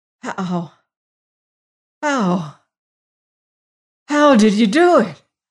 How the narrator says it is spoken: gasped the warden

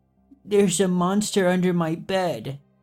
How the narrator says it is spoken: In a trembling voice, he answers

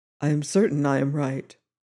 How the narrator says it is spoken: said the commissioner quietly

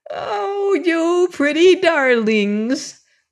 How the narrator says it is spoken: cried the old woman rapturously

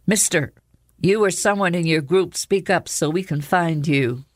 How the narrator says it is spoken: the same voice called out again

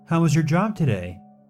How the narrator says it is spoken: I asked, trying to keep my tone light and pleasant

